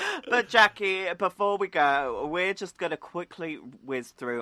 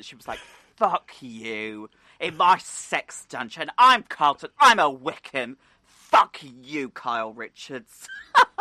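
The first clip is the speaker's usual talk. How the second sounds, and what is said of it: Strong East London accent. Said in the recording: “In that very strong East London accent”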